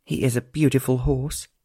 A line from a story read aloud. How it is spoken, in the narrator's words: sighed